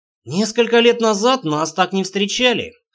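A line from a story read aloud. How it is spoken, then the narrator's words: Snorted. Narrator (Russian): хмыкнул Рейнар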